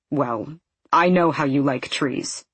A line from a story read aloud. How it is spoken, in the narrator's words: he says gruffly